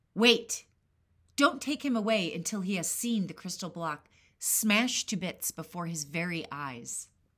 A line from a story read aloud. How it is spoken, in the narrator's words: the king shouted in his rage